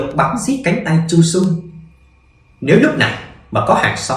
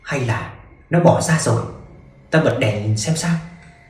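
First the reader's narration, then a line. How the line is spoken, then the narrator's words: Tense, very soft woman. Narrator (Vietnamese): Lục Lục càng thấy căng thẳng, cô nói thật khẽ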